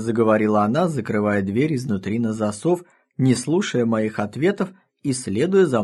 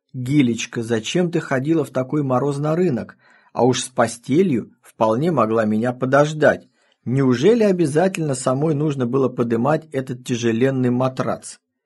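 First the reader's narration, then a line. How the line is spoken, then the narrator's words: Hypocritical reproach. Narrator (Russian): Я лицемерно укорял ее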